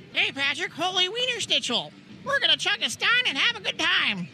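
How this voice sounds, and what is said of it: SpongeBob cartoon character voice. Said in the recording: “do an impression of SpongeBob being at Oktoberfest ... That was a scary SpongeBob”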